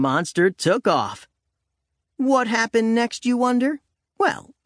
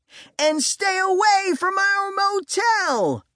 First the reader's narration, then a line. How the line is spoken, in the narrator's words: I hollered